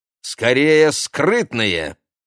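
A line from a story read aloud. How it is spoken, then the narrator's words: Exclamation. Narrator (Russian): воскликнула Ксения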